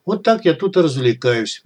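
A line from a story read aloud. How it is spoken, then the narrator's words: Sad. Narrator (Russian): грустно добавил Тимур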